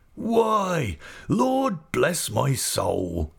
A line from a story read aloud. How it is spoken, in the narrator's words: exclaimed Mr